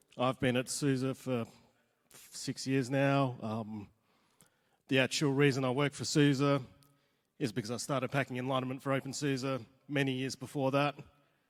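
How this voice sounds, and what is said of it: Australian accent. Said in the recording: “you might be able to tell from the accent, I'm from Australia”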